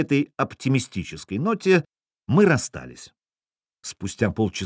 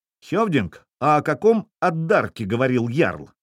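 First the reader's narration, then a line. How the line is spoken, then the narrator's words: Plain. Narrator (Russian): спросил он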